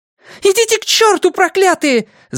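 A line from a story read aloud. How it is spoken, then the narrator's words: Woman shouting. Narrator (Russian): закричала женщина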